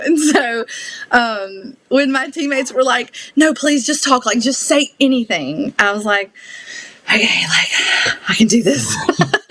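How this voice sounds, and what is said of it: Southern US drawl. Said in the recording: “your drawl. It's the cutest thing I've ever heard... my Southern accent... "Your accent is so cute."”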